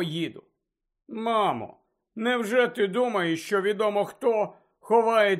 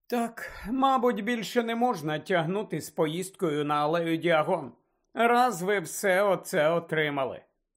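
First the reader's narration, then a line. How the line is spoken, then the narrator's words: Sighing. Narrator (Ukrainian): зітхнула місіс Візлі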